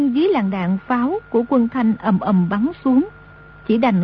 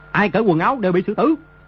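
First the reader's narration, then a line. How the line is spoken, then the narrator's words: Shouted command. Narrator (Vietnamese): Đồ Nhĩ Bố Thanh quát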